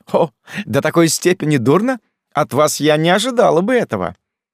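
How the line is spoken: Cheerful laughing. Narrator (Russian): Она весело рассмеялась

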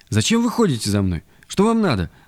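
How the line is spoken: Exclaiming. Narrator (Russian): воскликнула

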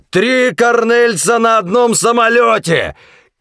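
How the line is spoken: Shouting. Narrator (Russian): крикнул Кросби

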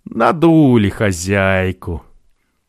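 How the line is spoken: Loud triumphant laughing. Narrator (Russian): он хохотал, торжествовал наедине и, подобно бродобрею царя Мидаса, громко повторял прибрежным камышам

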